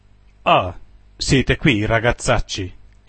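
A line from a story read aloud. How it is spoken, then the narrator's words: Exclaimed. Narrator (Italian): esclamò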